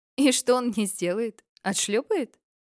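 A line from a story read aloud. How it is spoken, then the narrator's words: Laughing. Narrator (Russian): рассмеялся Фрейн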